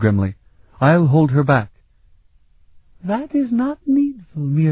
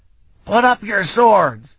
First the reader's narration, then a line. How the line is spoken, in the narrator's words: Vanyan barked